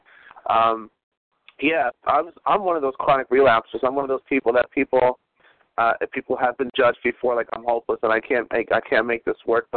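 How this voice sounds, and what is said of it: Slightly strained sore-throat voice. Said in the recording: “I have a little bit of a sore throat, so if my voice cuts out”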